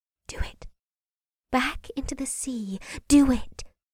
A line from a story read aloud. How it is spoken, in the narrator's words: the voice whispered again in his ear